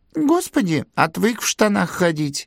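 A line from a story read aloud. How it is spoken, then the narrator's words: Giggling man. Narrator (Russian): хихикнул богатырь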